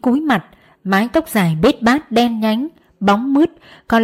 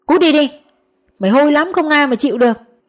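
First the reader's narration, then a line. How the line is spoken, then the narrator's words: Annoyed shouting. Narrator (Vietnamese): bắt đầu khó chịu với mùi hôi từ Dím, họ quát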